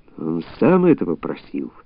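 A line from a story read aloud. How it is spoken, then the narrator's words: Muttered. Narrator (Russian): пробормотал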